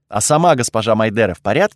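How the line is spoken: Plain. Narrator (Russian): спросил я

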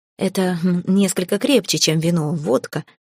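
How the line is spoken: Muttered. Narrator (Russian): пробормотала я

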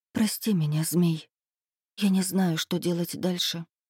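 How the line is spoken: Whisper. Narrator (Russian): я прошептала

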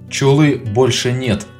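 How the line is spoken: Loud announcement. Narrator (Russian): громко объявил я

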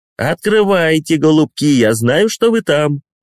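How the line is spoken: Cheerful. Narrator (Russian): весело говорит Гарри

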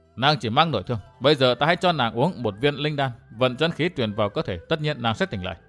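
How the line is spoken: Muttering. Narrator (Vietnamese): Gã lẩm bẩm

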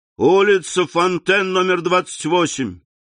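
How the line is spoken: Shouted to coachman. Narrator (Russian): крикнул кучеру

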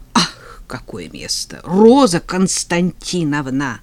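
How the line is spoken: Hissed. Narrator (Russian): прошипела я

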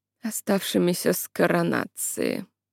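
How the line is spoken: Sleepy mumble. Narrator (Russian): бормотнул Бартоломью почти сквозь сон

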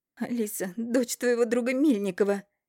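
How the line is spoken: Tearful, angry, rapid babbling. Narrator (Russian): Вся в слезах, не останавливаясь, со злостью лепетала мачеха

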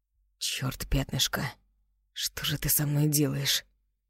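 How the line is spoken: Hoarse, tense question. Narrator (Russian): Роу спросил хрипло и напряженно

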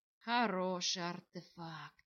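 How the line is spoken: Sigh. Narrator (Russian): Вздохнул владыка Кириона

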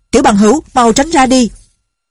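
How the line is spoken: Shouting. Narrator (Vietnamese): Tiếng quát

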